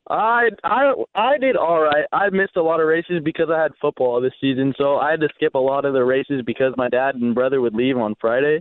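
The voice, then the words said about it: Radio voice. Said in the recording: “You got a radio voice, man. You should come on the radio with me.”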